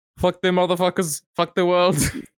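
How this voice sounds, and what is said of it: Put-on German accent, not convincing. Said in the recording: “What accent was that? Like Kyrgyzstan? ... It wasn't German enough”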